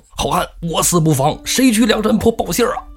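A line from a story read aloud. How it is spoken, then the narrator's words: Shouting. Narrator (Chinese): 大喊一声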